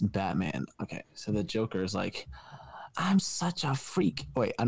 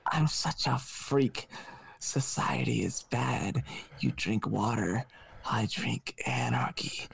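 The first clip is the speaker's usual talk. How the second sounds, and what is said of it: Put-on Joker character voice. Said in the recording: “I'm not gonna do an accent. ... do the accent, please. Do the accent.”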